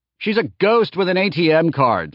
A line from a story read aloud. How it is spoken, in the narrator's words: Laertes yelled from the other room